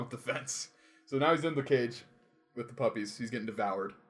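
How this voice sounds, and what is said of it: Usual voice. Nothing is said of it.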